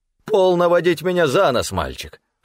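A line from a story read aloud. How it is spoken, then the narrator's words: Snorting. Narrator (Russian): фыркнула трость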